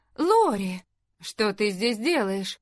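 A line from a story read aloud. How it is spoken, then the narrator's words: Cried out. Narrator (Russian): Эмили которая вскрикнула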